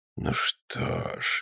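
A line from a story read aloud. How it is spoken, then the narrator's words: Soft. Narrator (Russian): мягко сказал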